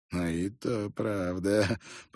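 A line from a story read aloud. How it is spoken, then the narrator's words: Muttered under breath. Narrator (Russian): пробормотал тот себе под нос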